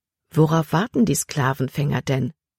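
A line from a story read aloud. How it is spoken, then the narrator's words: Plain. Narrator (German): fragte Libby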